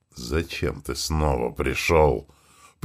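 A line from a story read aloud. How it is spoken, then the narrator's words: Creature's hiss. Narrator (Russian): прошипело первое существо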